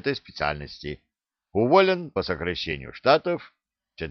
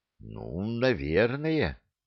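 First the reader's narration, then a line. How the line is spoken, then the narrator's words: Uncertain drawl. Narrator (Russian): неуверенно протянул Скоморох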